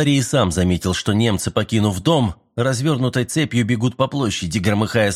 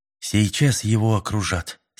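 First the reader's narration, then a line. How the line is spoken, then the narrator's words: Calm. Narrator (Russian): спокойно проговорил Мэлори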